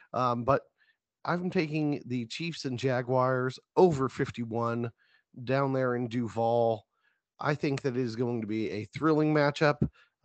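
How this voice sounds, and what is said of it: Strained, failing voice. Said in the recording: “I'm losing my voice”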